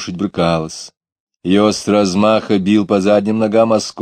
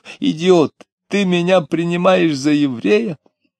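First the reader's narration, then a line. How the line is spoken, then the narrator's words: Short laugh, shout. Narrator (Russian): коротко засмеялся, крикнув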